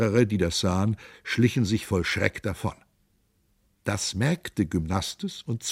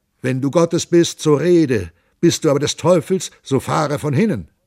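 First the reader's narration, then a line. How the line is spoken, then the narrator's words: Shouting. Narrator (German): Der Kapitän Hans Dampf schrie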